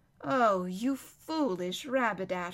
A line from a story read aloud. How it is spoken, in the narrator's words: sighed Lucy